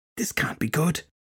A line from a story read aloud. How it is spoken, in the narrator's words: Shelley whispered over to Filthy Henry